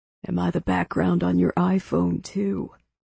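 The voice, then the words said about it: Whispered line. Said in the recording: “it was the voice whispering over my shoulder”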